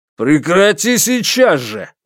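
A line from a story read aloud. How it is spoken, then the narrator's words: Shouting back. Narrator (Russian): выкрикнул Лю Дахун ему в ответ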